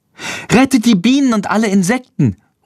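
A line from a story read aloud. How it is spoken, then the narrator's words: Calling out. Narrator (German): ruft Lilli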